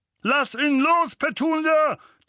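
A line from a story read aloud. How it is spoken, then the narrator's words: Thundering. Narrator (German): donnerte Onkel Vernon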